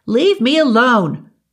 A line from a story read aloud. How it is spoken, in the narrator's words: the girl had screamed, squirming out